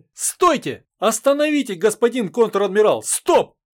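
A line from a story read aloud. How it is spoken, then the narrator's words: Shouting. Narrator (Russian): закричала она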